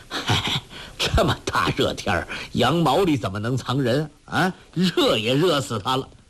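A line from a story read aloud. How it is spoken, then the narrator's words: Anxious forced laugh. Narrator (Chinese): 赤老温的父亲情急至生，笑道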